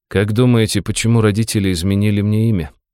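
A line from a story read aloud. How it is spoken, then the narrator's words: Calm voice. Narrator (Russian): произнес я спокойным голосом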